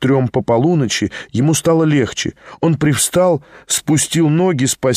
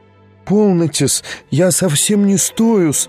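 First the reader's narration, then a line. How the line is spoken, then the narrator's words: Flustered babbling. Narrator (Russian): лепетала она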